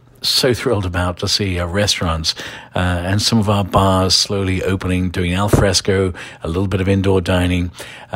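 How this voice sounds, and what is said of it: English accent. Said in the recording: “I'm an Irishman with an English accent ... Irishman with an English accent.”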